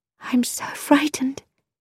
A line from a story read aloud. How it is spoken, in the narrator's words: she whispered